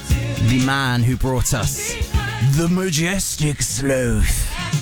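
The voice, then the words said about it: David Attenborough impression. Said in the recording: “my impression of David Attenborough is purely doing an impression of Jake off of Brooklyn Nine-Nine doing an impression.”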